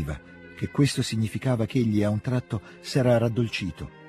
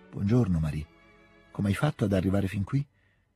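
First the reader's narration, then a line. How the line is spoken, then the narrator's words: Flat, distant voice. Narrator (Italian): domandò con una voce atona ed estranea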